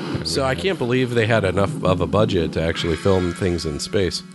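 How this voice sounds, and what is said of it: Usual voice. Nothing is said of it.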